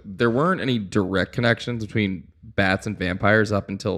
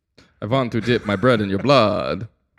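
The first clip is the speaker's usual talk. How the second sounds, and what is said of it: Vampire voice with Eastern European accent. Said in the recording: “That's basically how every vampire sounds. ... the accent of, I mean, because it is Eastern Europe.”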